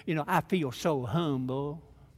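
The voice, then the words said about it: Imitated Southern US accent. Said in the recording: “in a real southern accent”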